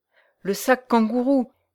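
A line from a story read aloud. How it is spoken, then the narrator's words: Stammered. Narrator (French): balbutia-t-elle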